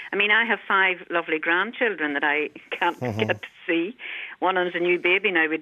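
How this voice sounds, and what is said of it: Irish accent, not Mullingar. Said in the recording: “you have a lovely accent, by the way. It's not from... I know Mullingar accent, lovely, but it's not Mullingar ... I can hear it in your the accent.”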